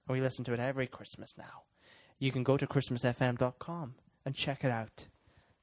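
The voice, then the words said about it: Exaggerated put-on Irish accent. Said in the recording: “My Irish accent's gone mental, isn't it?”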